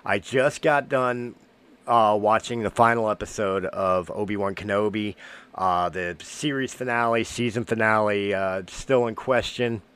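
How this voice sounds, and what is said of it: Voice affected by a cold. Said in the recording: “I'm getting over a cold, so my voice may not be 100%. You may hear me cough here or there.”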